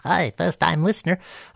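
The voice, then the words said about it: Cartoon character voice impression. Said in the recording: “in my best Bart Simpson voice”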